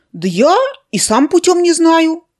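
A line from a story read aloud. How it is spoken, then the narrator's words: Confused boy. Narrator (Russian): растерянно ответил мальчик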